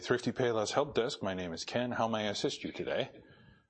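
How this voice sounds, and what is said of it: Polished professional phone voice. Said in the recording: “in my professional voice.”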